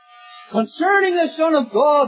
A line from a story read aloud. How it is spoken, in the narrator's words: they cried